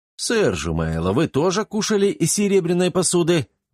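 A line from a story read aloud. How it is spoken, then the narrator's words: Exclaiming. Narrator (Russian): воскликнул Антон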